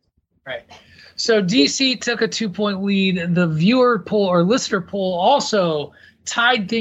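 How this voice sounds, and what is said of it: Usual voice. Nothing is said of it.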